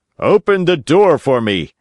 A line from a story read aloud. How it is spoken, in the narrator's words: Geppetto shouted from the street